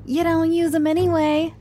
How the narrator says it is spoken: he cackled

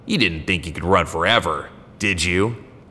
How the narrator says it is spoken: sneered

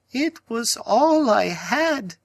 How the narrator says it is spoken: she wailed

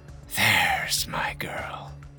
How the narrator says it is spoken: Her eyes were heavy-lidded as she whispered

